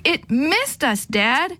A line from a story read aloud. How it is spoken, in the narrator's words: I shouted in elation